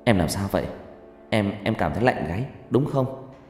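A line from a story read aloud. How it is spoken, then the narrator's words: Plain. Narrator (Vietnamese): Cường hỏi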